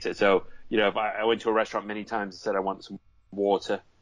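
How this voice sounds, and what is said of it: Mixed American accent with British hint. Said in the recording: “my accent's like slurred. Like you'll notice it's like half American with like a hint of British, right? So it's kind of mixed. Like people think I'm from Boston or New York”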